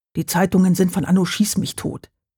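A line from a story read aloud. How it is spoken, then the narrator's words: Plain. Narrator (German): sagte Hauke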